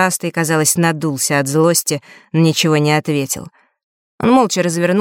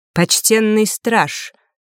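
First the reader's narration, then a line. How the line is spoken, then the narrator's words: Raised, stern voice. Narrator (Russian): повысил голос длинноволосый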